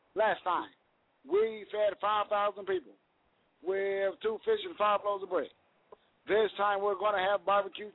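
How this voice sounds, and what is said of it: Barack Obama impression. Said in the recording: “the Celebrity Impersonator ... my little celebrity impersonation thing ... what if Barack Obama had been at the Last Supper”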